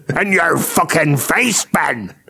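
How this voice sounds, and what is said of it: Half Northern Irish, half pirate accent. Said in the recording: “that was half Northern Irish, half pirate”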